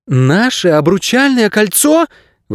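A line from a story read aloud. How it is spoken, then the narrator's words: Exclaiming. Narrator (Russian): воскликнула Мирта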